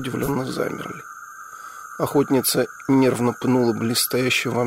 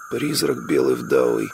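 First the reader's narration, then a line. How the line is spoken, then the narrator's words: Hoarse blurt. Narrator (Russian): хрипло выдал кто-то из шакалов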